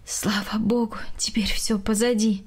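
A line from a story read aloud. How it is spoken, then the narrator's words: Sighing. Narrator (Russian): вздохнула Галина Яковлевна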